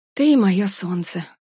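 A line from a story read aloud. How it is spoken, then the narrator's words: Breathed into the phone. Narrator (Russian): выдохнула Варя в трубку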